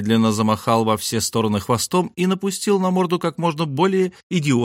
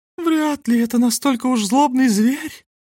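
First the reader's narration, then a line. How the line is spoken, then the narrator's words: Stated in feminine voice. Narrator (Russian): констатировал женским голоском великий сыщик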